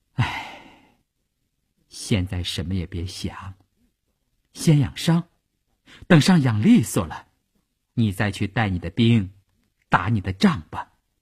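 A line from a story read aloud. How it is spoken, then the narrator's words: Sighing. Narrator (Chinese): 他叹了一口气说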